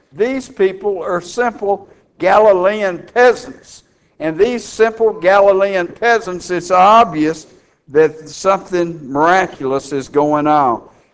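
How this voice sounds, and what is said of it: Texan accent. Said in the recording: “My brogue, my language betrays me that I was born and raised right here in Dallas, Texas”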